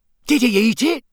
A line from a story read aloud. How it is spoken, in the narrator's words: said Fred excitedly